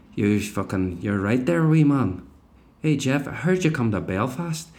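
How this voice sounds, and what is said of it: Put-on Belfast accent. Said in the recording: “Belfast, along with Glasgow ... two of the coolest fucking accents in Britain ... I lost the accent a bit there”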